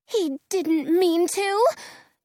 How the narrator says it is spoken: Dorothy says nervously

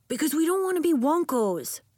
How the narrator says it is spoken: Elliot blurted

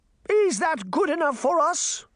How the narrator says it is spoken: the Queen cried

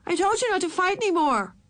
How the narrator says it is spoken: Ramona yelled through the furnace pipes

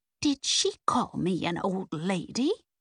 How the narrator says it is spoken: Nance whispered indignantly

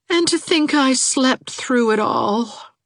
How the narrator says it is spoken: moaned Tommy Nelson heartbrokenly

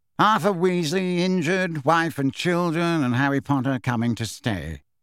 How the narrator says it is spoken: repeated Phineas in a bored voice

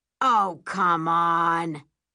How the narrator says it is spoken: my dad scoffs

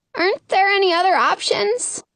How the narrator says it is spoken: I ask, my voice squeaky

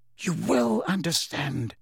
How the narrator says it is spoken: whispered Dumbledore

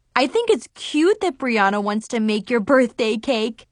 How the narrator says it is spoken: Zoe giggled

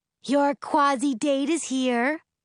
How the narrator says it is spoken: my mother yells from the living room

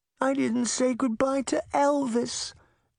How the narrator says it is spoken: Daphne whimpered

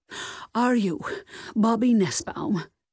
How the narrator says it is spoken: Ida asked breathlessly

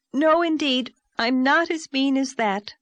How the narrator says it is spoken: exclaimed Anne

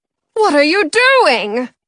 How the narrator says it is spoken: Mother Bear cries

